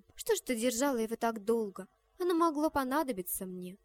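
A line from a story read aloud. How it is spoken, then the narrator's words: Displeased tone. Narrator (Russian): та сказала ей недовольным тоном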